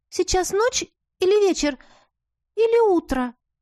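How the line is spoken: Thin babbling voice. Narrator (Russian): пролепетала Лиза тоненьким голоском

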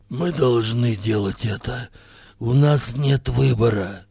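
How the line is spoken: Grim hoarse rasp. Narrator (Russian): мрачно прохрипел Хирилак

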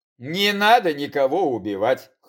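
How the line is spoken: Snort. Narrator (Russian): хмыкнул я

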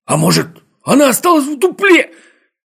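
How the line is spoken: Nearly shouting. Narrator (Russian): чуть не закричал Скуперфильд

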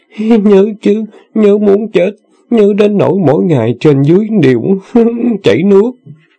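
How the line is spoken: Moaning. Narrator (Vietnamese): Sư nương rên rỉ nói

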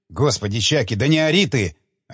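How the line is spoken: Scientist's irritated rebuke. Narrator (Russian): одернул его второй ученый, раздраженно

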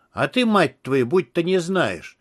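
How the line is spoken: Angry emotional exclamation. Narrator (Russian): зло воскликнул Такер, от переизбытка чувств

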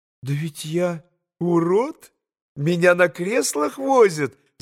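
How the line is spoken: Laughing. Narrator (Russian): засмеялась Лиза

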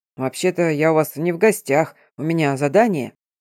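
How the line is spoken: Awkward cough, deep bass. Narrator (Russian): неловко кашлянул и пробасил

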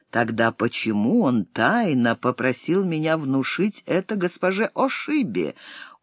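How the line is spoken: Quiet question. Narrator (Russian): Кири тихонько спросила

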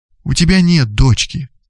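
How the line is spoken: Tender, affectionate. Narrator (Russian): ласково говорила Лилия

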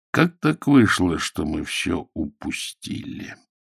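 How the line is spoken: Slow deliberate speech. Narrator (Russian): Медленно выговаривая слова, отвечал Воронцов

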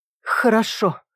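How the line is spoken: Breathy, yielding. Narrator (Russian): выдохнула она, перестав сопротивляться

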